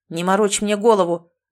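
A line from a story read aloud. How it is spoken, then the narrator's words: Barked by unfamiliar voice. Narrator (Russian): гаркнул незнакомый голос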